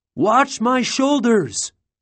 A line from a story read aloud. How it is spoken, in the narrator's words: he yelled through his gas mask